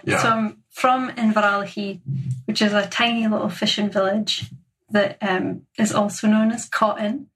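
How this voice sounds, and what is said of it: Slight regional twang in accent. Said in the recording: “you got a bit of a twang in your accent.”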